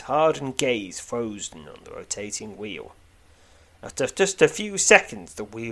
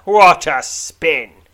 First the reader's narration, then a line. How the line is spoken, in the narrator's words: He shouts